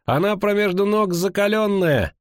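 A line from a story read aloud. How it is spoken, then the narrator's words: Coarse cursing. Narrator (Russian): Фалька грубо выругалась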